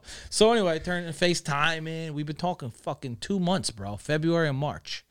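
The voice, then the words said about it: New Jersey New York accent. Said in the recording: “Jersey New Yorker ... I love your accent.”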